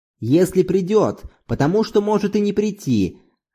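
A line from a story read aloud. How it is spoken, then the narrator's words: Angry after a pause. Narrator (Russian): Зорбас немного помолчал и снова сказал уже сердито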